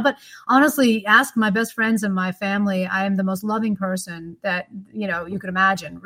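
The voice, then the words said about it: American accent. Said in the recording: “probably my accent doesn't help. You know, people think of, you know, American women”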